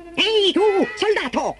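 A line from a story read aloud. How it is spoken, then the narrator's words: Puppet shrieking. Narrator (Italian): strillò il fantoccio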